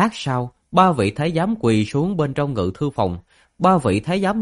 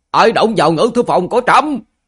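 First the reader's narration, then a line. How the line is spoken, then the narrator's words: Sudden loud shout. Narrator (Vietnamese): đột nhiên lớn tiếng quát lên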